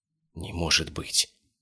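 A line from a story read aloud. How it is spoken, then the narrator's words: Whispered. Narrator (Russian): прошептал инспектор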